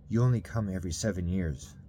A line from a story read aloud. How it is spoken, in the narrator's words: Jimmy said